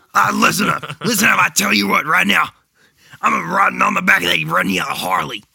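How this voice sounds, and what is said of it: Low-voiced impression of another person. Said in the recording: “Hulk Hogan ... My voice is not low enough for that.”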